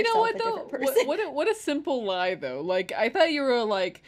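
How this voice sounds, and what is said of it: Usual voice. Nothing is said of it.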